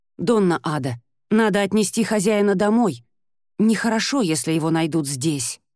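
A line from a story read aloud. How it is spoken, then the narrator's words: Plain. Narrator (Russian): сказал Прото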